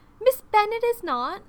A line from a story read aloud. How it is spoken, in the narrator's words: exclaimed Folly indignantly